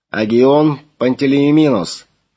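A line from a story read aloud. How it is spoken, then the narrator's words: Booming through loudspeakers. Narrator (Russian): прогремел из динамиков кают-компании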